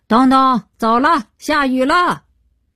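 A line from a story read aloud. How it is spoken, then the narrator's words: Calling out far. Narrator (Chinese): 向远处高喊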